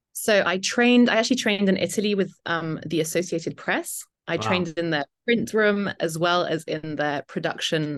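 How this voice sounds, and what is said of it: British accent. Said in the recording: “I love your accent... if I could change my accent, it would be a British accent... my British accent”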